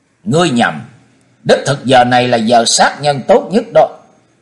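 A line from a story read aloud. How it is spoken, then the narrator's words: Cold distant voice. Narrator (Vietnamese): một giọng nói lạnh lùng vọng vào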